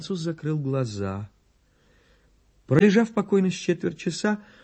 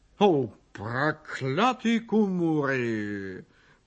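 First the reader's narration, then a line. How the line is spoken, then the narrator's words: Grumbling. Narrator (Russian): проворчал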